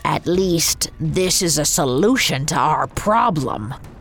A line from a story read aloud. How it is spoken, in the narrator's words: growled Coppelius